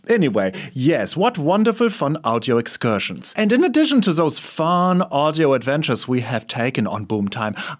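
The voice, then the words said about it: German accent. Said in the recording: “my accent is not just here to hang out like an awkward person at the punch bowl. No, it is because I'm from Germany”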